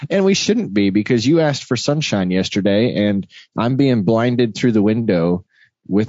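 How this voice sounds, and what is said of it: Sounds a little tired. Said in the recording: “you sound a little tired”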